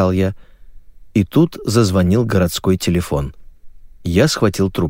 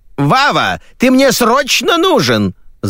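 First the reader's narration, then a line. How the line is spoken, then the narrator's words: Mother shouting. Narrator (Russian): закричала маменька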